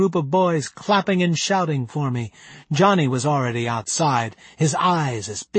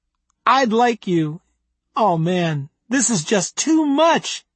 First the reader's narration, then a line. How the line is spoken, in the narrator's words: he giggled